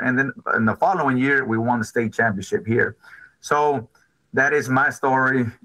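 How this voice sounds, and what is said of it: Hoarse, lost voice. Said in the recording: “that's why my voice, I lost my voice this morning.”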